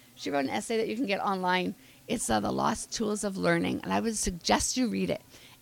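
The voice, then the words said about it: Hoarse, fading voice. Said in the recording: “told you I'm losing my voice.”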